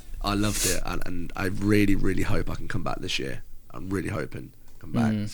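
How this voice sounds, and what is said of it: English accent. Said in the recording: “the UK accent ... you're from England”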